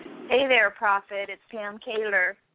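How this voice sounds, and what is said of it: Happy, cheerful voice. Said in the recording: “You sound happy.”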